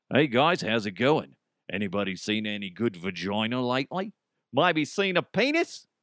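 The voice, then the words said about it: Put-on Australian accent. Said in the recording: “I say vagina in an Australian accent”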